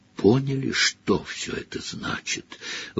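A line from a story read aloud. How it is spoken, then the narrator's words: Breathed out. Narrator (Russian): выдохнул он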